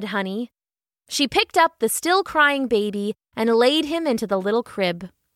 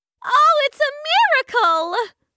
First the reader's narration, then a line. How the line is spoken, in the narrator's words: Honey cried